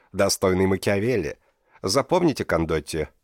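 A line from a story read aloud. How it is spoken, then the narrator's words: Dry. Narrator (Russian): сухо проговорил Карла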